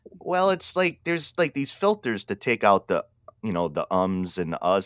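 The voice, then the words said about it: New England accent. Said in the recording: “I talk like I'm from Pawtucket, Rhode Island ... my accent will drop more into it ... I love your accent ... he has to be from New England”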